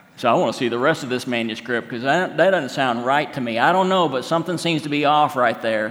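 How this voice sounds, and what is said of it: Put-on Oklahoma accent. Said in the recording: “That's my Oklahoma accent.”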